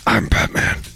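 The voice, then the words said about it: Batman voice impression. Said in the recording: “Who does the better Batman voice? ... your Batman's better.”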